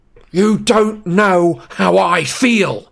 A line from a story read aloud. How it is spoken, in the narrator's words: Harry roared